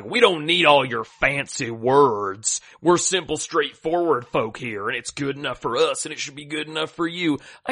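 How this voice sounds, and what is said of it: Put-on regional American accent. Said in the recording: “I shouldn't have done that accent. That was mean. I'm sorry, anyone who has a similar accent. ... where people come from in the country ... Shouldn't have done an accent.”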